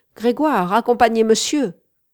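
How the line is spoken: Shouted. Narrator (French): me cria-t-elle

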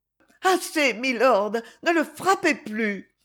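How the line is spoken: Pleading cry. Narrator (French): s'écria-t-elle d'un ton suppliant

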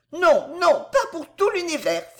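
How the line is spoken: Exclaiming. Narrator (French): s'écria-t-elle

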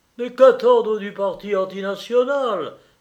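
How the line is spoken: Exclaimed, colonel. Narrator (French): s'écria le colonel

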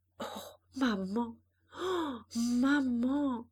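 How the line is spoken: Broken voice. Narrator (French): d'une voix brisée

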